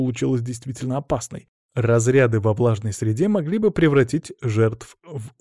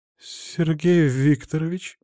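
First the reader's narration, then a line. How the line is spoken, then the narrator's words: Flustered then menacing exclamation. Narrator (Russian): сначала растерянно, затем грозно воскликнула женщина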